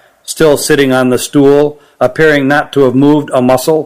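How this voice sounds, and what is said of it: Usual voice. Nothing is said of it.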